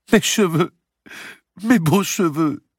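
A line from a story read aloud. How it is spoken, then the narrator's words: Sobbing. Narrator (French): sanglotait Blanche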